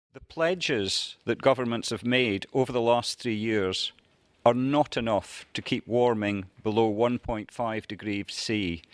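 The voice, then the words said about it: Scottish accent. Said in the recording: “charming man with a Scottish accent”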